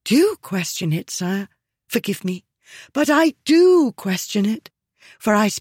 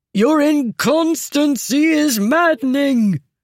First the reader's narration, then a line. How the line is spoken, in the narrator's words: Kamran cried, no longer able to control his anger